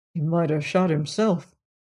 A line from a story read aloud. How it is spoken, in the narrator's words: mumbled Kaylee